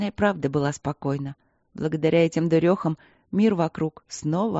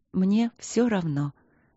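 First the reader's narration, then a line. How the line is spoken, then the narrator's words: Soft repetition. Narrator (Russian): мягко повторила Ангелина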